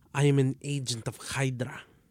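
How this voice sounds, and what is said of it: Put-on villain accent. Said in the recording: “That was actually better... Your accents.”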